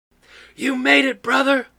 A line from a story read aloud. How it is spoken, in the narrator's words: Freddy hollered